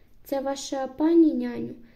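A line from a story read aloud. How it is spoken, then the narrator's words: Plain. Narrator (Ukrainian): запитав містер Лот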